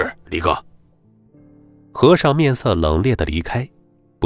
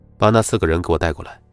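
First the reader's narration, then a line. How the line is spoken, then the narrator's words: Cold voice. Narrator (Chinese): 冷声说道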